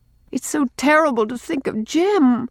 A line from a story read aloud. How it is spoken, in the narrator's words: pleaded Rilla